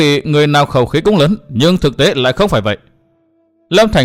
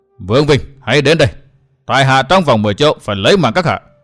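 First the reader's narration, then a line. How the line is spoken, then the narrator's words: Raised voice. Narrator (Vietnamese): Cất cao giọng nói tiếp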